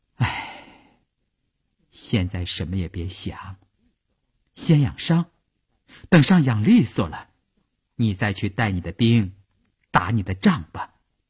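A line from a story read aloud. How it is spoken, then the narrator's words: Sighing. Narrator (Chinese): 他叹了一口气说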